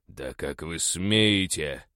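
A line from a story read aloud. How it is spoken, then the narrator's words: Growled. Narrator (Russian): прорычал я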